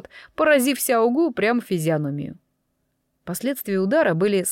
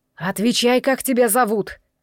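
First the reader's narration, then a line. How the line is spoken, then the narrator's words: Menacing old man's roar. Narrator (Russian): грозно проревел старец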